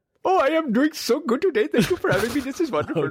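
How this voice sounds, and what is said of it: Put-on Indian accent. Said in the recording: “is going to be a different accent every episode now. ... now it's an Indian person”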